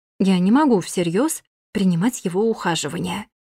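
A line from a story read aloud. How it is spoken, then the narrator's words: Mantra-like repetition. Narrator (Russian): повторяла как мантру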